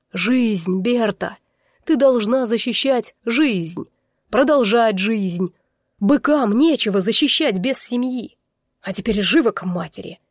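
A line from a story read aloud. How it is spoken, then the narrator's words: Growled. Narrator (Russian): рыкнул он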